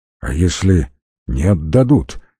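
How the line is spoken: Quiet question. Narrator (Russian): тихо спросил Георгий

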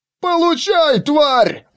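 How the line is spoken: Loud yell. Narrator (Russian): громче обычного завопил гном

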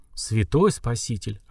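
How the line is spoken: Stunned breathless gasp. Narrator (Russian): ошалело выдохнул великий магистр

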